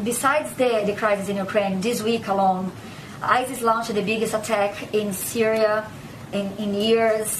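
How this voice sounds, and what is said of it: Speaks with a foreign accent. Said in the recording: “a reporter with a foreign accent ... even with a foreign accent”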